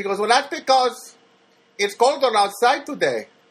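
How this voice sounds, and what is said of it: Put-on Filipina accent. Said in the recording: “my Filipina, I apologize for my Filipina accent. Just trying to show that, you know, trying to do the character.”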